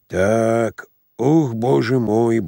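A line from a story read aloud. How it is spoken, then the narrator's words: Sighing. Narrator (Russian): вздохнул Самойленко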